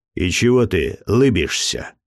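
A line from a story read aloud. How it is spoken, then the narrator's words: Rude interruption. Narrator (Russian): грубо оборвал мои мысли государь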